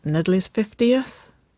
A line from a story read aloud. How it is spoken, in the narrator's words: Waverly murmured